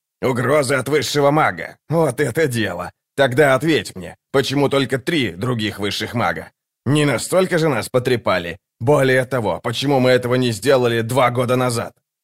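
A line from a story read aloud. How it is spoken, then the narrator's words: Grumbling, then speaking. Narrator (Russian): Дуджик, который без слов заворчал, а потом сказал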